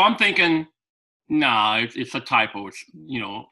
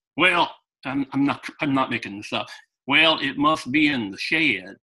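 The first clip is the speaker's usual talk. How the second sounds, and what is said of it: Put-on Southern US accent. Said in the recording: “I can't do a good Southern accent”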